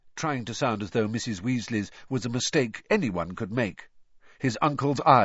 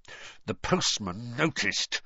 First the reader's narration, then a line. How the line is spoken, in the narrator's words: he said through gritted teeth